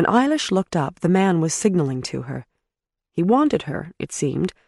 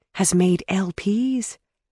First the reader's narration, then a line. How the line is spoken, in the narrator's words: Miss Murphy whispered to Eilish